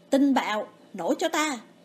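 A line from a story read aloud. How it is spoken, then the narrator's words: Loud shout. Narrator (Vietnamese): Lâm Vân hét lớn một tiếng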